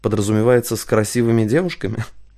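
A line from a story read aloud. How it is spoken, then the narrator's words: Laughing. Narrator (Russian): Кристина засмеялась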